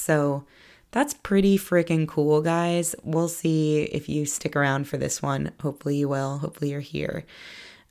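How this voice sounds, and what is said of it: Slightly raspy voice. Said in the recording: “Right now it's a little bit more raspy because allergies have been coming to get me.”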